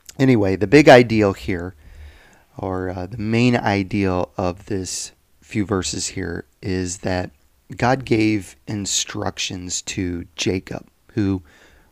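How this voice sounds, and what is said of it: Scratchy, croaky throat. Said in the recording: “my scratchy throat ... like I have a frog in my throat”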